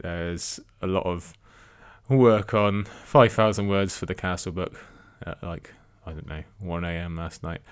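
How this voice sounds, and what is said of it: Tired-sounding voice. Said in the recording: “You can probably tell from my voice, I'm very tired today.”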